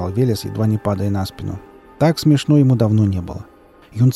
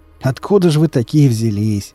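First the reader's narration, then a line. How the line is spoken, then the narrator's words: Question after laughing. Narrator (Russian): Отсмеявшись и утерев выступившую слезу, спросил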